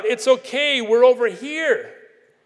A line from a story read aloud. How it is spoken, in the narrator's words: their father had heard their distress, and he immediately called out